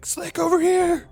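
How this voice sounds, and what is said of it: Yelling. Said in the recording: “I'm yelling for Slick”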